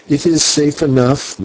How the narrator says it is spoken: Maya answered with a bitter laugh

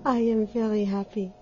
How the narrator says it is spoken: she sighed

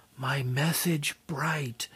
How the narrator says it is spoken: crying softly

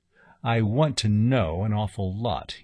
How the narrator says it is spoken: he said

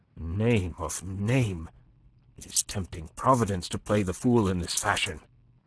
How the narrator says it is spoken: Le Chapelier swore softly, muttering

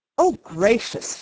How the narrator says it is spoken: she exclaimed

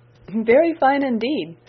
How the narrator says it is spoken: said Miss Crawford, laughing

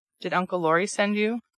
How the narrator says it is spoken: proceeded Demi, politely but gravely

